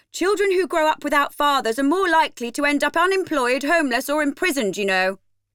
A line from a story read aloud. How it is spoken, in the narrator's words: yell in unison